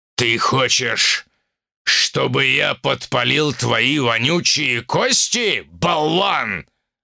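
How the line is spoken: Barked. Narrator (Russian): рявкнул он

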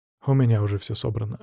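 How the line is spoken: Plain. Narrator (Russian): ответил я

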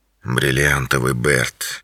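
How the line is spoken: Quiet. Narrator (Russian): тихо произнес

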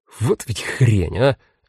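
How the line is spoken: Offended cursing. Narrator (Russian): обиженно выругался он

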